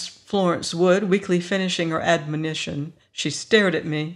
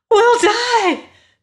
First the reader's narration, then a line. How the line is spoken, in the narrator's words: she screamed